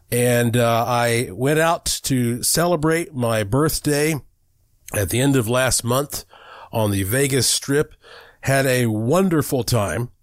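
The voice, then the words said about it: Slightly off, sick-sounding voice. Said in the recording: “my voice sounds a little bit off, and that is because I have been sick”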